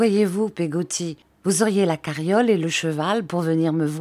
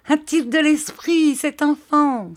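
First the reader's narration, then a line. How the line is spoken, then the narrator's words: Exclaiming. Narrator (French): s'écria Peggotty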